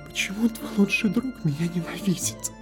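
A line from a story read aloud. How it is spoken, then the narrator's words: Whispered. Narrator (Russian): Царь шепнул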